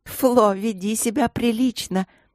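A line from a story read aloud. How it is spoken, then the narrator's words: Giggling. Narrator (Russian): хихикнула леди Агнес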